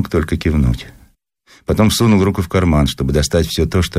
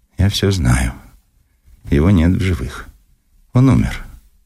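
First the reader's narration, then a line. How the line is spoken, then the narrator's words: Unnaturally calm voice. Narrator (Russian): неестественно спокойным голосом произнесла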